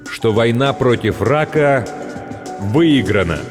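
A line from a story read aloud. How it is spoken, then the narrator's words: Loud and slow. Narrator (Russian): громко и медленно произносит он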